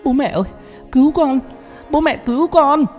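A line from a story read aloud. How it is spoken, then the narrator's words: Screaming wail. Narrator (Vietnamese): gào thét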